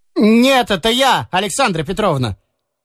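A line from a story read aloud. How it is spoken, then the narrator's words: Shouted in false voice. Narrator (Russian): крикнул он в дверь фальшивым голосом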